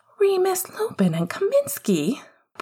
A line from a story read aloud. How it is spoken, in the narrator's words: breathed